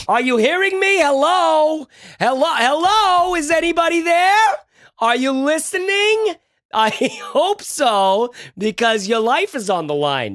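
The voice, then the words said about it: Yelling loudly. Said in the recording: “I'm yelling. ... now I'm just like trying to be louder. ... Just being louder.”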